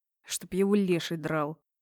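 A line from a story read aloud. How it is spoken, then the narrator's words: Displeased grumbling. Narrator (Russian): проворчал недовольно Дэн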